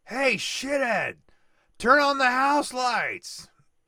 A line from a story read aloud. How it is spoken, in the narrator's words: Iggy yells